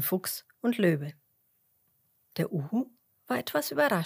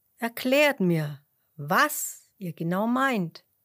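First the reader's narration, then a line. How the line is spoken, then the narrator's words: Plain. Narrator (German): sagte er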